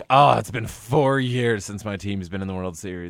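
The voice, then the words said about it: Imitates an entitled sports fan. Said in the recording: “That was my impression of a Red Sox and a Yankee fan. ... You have good impersonations.”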